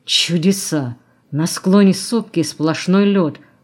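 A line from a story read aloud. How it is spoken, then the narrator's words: Bewildered mutter. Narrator (Russian): буркнул он растерянно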